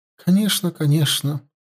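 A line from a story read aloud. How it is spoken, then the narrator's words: Sad. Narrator (Russian): печально кивнула она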